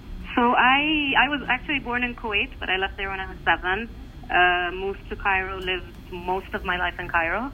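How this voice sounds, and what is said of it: Slight foreign accent. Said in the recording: “People have heard a bit of an accent.”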